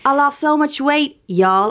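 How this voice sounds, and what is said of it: Put-on Southern American accent. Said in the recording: “performs them in like a Southern accent ... I don't know what the Southern accent is. ... I threw the y'all in there.”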